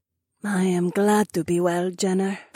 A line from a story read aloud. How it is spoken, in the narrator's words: said quietly, but with a grateful smile